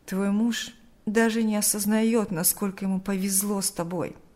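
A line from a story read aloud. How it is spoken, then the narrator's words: Sighing. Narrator (Russian): вздохнул Берни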